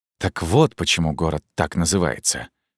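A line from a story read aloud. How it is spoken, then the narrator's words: Muttering. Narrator (Russian): пробормотал Армаис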